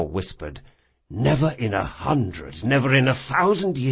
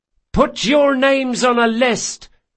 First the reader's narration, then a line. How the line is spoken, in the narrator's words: hollered Ezri